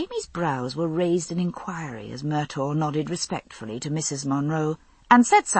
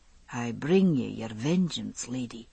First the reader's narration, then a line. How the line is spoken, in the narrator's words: he said, as quietly as I'd ever heard him speak